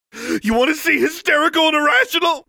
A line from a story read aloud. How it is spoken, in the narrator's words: screamed